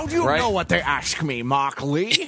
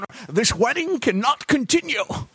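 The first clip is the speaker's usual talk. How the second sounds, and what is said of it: Sean Connery impression. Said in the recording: “I see you've brought out your Sean Connery impression. ... I've brought out my Sean Connery.”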